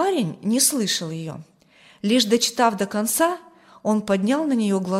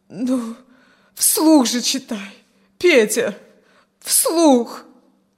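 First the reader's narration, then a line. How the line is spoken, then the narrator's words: Moaning. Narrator (Russian): поскольку он не произносил ни слова, простонала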